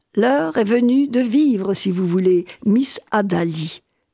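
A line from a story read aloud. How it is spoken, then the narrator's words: Plain answer. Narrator (French): répondit Edison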